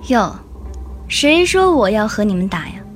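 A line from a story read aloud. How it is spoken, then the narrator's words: Sighing, coldly mocking. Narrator (Chinese): 幽冥 叹息着，脸上是一种冷冷的嘲讽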